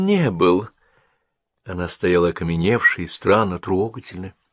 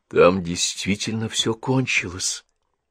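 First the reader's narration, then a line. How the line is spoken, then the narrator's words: Quiet. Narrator (Russian): тихо сказала Генриетта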